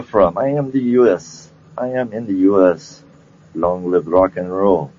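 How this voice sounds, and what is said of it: Usual voice. Nothing is said of it.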